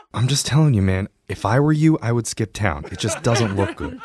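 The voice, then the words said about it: Low, creepy voice. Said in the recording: “talking in the low, creepy voice”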